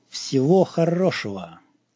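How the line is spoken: Cold, through teeth. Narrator (Russian): холодно процедил

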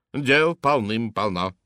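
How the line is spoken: Booming hum. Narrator (Russian): прогудела миссис Мастертон

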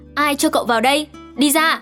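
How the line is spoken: Furious shout. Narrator (Vietnamese): Dương điền tiết quay sang cậu ta hét

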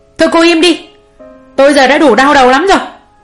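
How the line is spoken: Shout. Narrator (Vietnamese): Bố Nam quát mụ Hường

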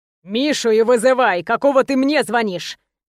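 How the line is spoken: Growling. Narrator (Russian): зарычал

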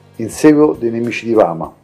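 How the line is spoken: Plain. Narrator (Italian): rispose

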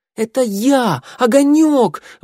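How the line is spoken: Howling wail. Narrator (Russian): взвыл он

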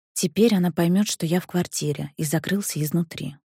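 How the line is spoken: Whispered. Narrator (Russian): прошептал Петров

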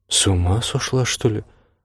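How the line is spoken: Old woman muttering. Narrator (Russian): пробормотала простарая

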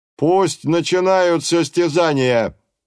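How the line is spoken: Thunderous exclamation. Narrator (Russian): громовым голосом воскликнул

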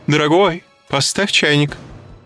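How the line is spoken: Shouted. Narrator (Russian): крикнула

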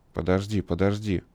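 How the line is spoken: Confused muttering. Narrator (Russian): растерянно бормотал Плеско

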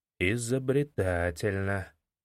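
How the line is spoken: Muttered. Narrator (Russian): пробормотал незнакомец

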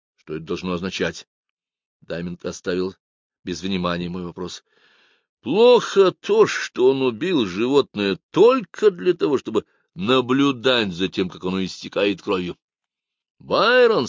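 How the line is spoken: Plain. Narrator (Russian): сказал я ему

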